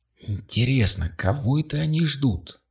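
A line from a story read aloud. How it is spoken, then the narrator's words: Whisper. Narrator (Russian): прошептала Кристина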